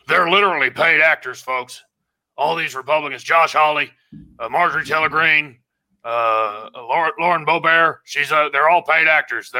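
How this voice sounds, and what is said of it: Imitates another person's voice. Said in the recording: “going to put on my Alex Jones voice”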